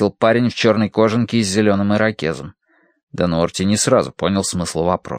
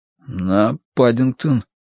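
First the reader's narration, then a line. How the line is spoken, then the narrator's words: Hoarse panicked strain. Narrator (Russian): выдавил Дануорти осипшим от паники голосом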